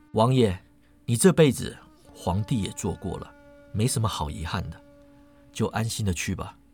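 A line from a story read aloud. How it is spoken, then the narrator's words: Soft sigh. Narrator (Chinese): 庄生轻叹口气，说道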